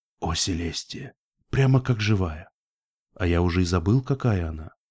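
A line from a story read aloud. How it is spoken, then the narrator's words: Whisper nearby. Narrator (Russian): прошептал единорог где-то рядом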